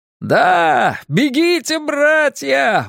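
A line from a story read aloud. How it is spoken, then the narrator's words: Yelling in steppe dialect. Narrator (Russian): вопил он по-амитрайски на своем степном наречии окрестностей Саурагара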